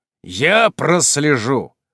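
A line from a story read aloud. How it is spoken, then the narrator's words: Stern clipped. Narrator (Russian): строго чеканю, нехотя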